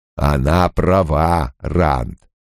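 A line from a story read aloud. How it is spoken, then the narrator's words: Slow. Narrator (Russian): медленно сказал Лойл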